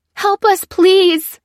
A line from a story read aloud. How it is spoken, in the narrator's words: cried the woman who was still inside the vehicle